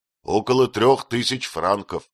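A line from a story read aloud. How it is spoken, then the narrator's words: Plain. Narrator (Russian): ответил Этьен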